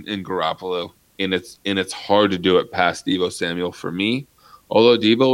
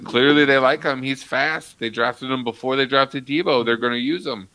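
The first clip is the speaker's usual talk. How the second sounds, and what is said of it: Yelling, loud emphatic speech. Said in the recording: “I don't know why I'm yelling at you ... I don't know why you're yelling at me either”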